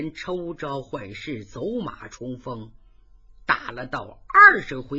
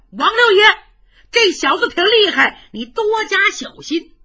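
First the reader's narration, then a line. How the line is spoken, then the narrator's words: Young men shouting. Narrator (Chinese): 英雄会的儿郎也高喊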